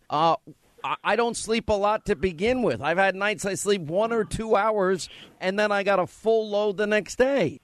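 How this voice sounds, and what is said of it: New York accent. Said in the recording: “my New York accent is a lot thicker when I'm tired”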